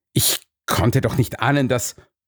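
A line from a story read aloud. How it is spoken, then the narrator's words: Stammered. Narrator (German): stammelte er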